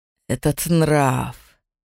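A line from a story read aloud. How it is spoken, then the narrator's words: Hissed through teeth. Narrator (Russian): Прошипел сквозь зубы отец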